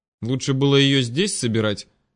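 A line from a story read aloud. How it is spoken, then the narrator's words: Snappish retort. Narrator (Russian): огрызнулась Вера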